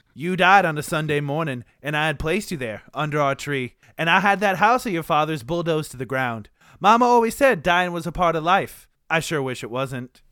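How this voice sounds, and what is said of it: Put-on Southern accent. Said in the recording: “start with the Southern accent”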